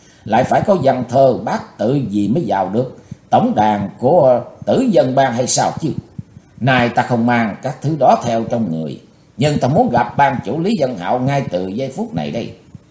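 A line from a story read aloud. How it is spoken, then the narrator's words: Laughing loudly. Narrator (Vietnamese): Chí Tôn cười lớn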